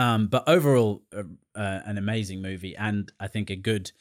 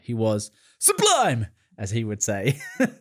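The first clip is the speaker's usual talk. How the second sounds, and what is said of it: Imitates another person's voice. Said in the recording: “My best Ryan Gosling impression.”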